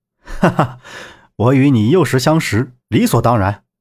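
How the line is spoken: Hearty laugh. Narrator (Chinese): 萧平浪爽朗一笑，道

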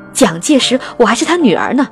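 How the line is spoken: Shouting. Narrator (Chinese): 对方大叫了起来

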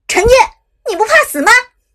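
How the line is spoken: Angry roar over phone. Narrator (Chinese): 手机中传来了伍兹的一声怒吼

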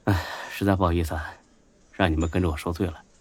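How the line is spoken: Sighing after drinking. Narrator (Chinese): 几杯酒下肚，孙志呢叹了口气

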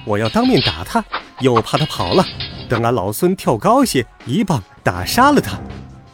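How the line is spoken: Laughing. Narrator (Chinese): 孙悟空笑道

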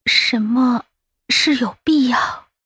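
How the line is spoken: Weak, exhausted question. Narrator (Chinese): 这话问得有气无力，全身早已被抽空了

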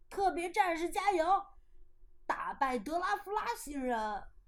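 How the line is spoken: Crowd shouting. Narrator (Chinese): 大家还是喊着

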